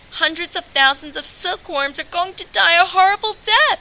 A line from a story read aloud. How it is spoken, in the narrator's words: bawled